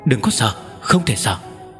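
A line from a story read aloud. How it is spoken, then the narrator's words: Shy soft voice. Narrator (Vietnamese): Công Tôn Yến khẽ kêu lên một tiếng, có vẻ e thẹn, sắc mặt đỏ bừng khẽ nói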